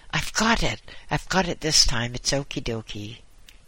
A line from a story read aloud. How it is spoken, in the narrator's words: a voice exclaiming